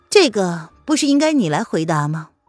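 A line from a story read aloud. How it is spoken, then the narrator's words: Flat, emotionless. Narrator (Chinese): 林渊语气淡淡的，情绪没有半点的起伏，仿佛只是在陈述一个事实一样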